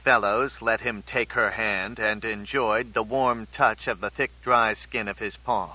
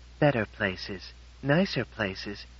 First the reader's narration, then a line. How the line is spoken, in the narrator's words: she said sadly